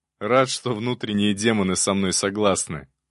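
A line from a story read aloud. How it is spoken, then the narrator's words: Bursting laughter. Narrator (Russian): расхохотался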